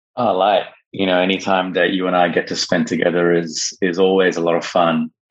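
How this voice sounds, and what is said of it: Australian-sounding accent. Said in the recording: “your voice and your accent, and they may think, okay, this is some white guy from Australia”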